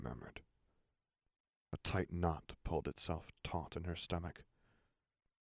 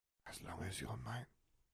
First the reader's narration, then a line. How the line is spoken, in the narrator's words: she whispered